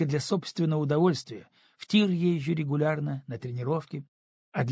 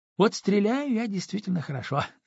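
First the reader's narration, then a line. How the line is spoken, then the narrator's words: Laughing. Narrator (Russian): засмеялась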